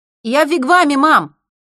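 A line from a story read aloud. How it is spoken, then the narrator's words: Shout. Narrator (Russian): прокричал Джастин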